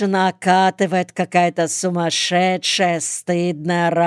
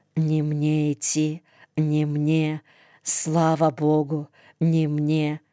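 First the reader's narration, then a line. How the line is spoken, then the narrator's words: Muttering to himself. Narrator (Russian): Бормочет про себя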